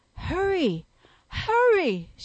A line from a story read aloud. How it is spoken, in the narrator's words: she exclaimed